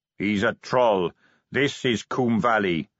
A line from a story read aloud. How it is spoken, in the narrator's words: said the captain flatly